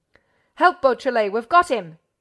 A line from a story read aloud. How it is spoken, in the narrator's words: Ganimard bellowed